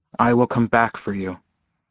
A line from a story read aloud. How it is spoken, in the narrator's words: he'd said